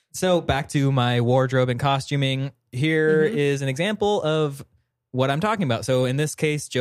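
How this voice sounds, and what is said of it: Usual voice. Nothing is said of it.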